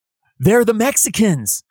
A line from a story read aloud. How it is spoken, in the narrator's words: yells out